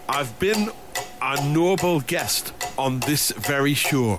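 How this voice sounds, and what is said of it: Generic northeast English accent. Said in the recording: “Ross Noble, comedian Ross Noble. ... That's just a generic northeast accent.”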